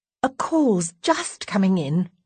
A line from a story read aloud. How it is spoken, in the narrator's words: I say hastily